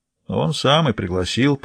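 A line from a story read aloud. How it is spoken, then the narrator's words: Muttered. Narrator (Russian): пробормотала сигара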